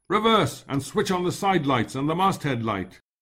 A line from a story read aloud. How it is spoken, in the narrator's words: I shouted to Tom